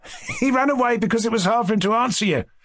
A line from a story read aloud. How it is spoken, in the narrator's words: laughed the young man on the sofa